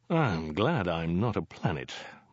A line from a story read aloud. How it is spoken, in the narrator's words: muttered Zaphod